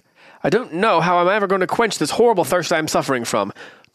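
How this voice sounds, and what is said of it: Reads aloud in a put-on accent. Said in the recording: “this is the same accent I used last time I talked to you”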